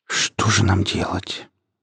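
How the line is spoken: Whispered. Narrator (Russian): прошептал Вадим

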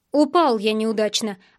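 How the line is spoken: Irritated. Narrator (Russian): ответил я раздраженно

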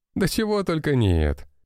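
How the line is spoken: Laughing. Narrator (Russian): рассмеялся тот

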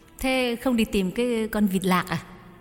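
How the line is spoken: Smiling question. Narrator (Vietnamese): Nhài mỉm cười hỏi

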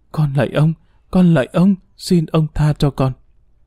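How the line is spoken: Trembling frightened moaning. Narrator (Vietnamese): tiếng rên rỉ, run rẩy, sợ hãi

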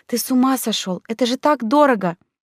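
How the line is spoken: Frightened scolding. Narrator (Russian): испуганно выговаривая Оскару

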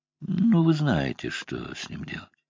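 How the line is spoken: Sighing. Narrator (Russian): Он вздохнул

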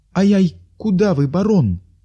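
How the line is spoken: Frightened exclamation. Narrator (Russian): испуганно воскликнула Липунова

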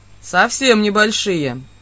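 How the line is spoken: Suspiciously serious. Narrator (Russian): Подозрительно серьезным тоном согласился Родан

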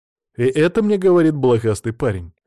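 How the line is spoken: Smirking snort. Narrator (Russian): хмыкнул

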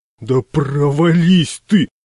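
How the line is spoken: Roar. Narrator (Russian): взревел я

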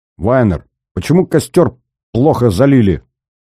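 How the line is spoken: Displeased shout. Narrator (Russian): недовольно крикнул он

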